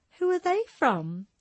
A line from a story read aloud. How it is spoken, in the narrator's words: she asked playfully, a grin spreading from ear to ear